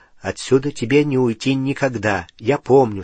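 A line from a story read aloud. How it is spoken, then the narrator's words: Plain. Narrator (Russian): сказал Гарри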